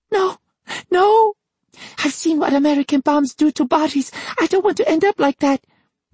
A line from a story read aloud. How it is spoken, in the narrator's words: Masako cried